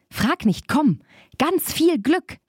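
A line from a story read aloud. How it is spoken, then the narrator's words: Called. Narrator (German): rief Barbe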